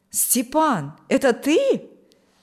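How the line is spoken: Joyful exclamation. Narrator (Russian): воскликнул Николай обрадованно

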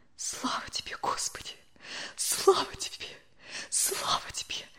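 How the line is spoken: Whispered. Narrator (Russian): шептала Любовь Александровна

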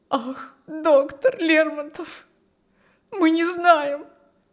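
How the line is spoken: Tearful reply. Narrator (Russian): ответила пани Прибовская сквозь слезы

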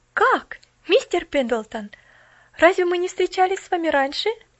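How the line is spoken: Exclaiming. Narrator (Russian): воскликнула она

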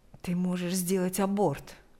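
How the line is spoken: Private whisper. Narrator (Russian): предложил он шепотом, чтобы слышала только Лика

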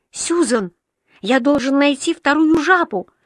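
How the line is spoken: Desperate exclamation. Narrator (Russian): воскликнул Уолтер с отчаянием в голосе

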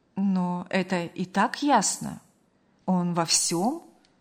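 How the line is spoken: Calm, restrained. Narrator (Russian): Спокойно и сдержанно заметила мать

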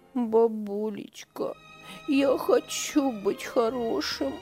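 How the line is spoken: Sobbing child. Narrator (Russian): всхлипывал мальчик

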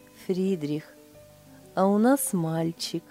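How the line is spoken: Blissful, smiling. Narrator (Russian): Блаженно улыбаясь, Лиля сказала

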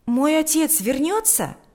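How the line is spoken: Exclaiming. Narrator (Russian): воскликнул Сережа

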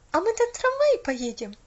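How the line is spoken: Excited question. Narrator (Russian): радостно спросила Поллианна

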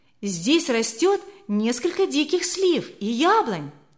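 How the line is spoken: Girl's exclamation. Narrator (Russian): воскликнула одна из девочек Алертон

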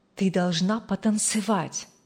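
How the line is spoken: Whisper in ear. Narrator (Russian): прошептал на ухо Рэйчел отец

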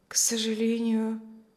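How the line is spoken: Quiet, disappointed, pained. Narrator (Russian): разочарованная и нескрываемой болью проговорила тихо миссис Ковальская

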